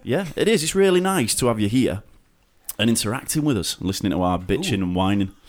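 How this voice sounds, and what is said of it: Yorkshire accent. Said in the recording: “our dirty Yorkshire accents”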